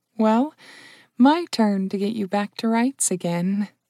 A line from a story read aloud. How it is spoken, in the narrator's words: murmured the Dryad